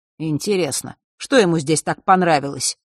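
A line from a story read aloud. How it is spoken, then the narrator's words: Displeased grunt. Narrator (Russian): недовольно хмыкнул Фэш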